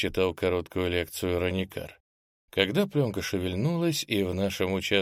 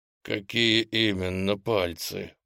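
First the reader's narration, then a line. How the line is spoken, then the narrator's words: Through gritted teeth. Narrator (Russian): процедил я сквозь зубы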